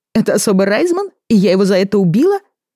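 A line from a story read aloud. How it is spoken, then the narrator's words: Laughing. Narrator (Russian): засмеялась Вера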